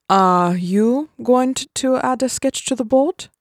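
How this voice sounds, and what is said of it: Heavy German accent. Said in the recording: “speaking with a heavy German accent”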